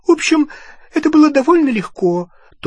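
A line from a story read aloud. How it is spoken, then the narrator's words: Thin, high voice. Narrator (Russian): тонким голосом сообщила Гермиона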